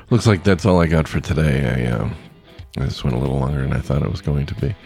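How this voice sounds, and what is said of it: Hoarse, fading voice. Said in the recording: “Oh, I'm losing my voice.”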